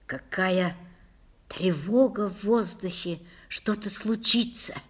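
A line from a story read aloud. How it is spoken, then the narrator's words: Whispered. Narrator (Russian): прошептала Лиля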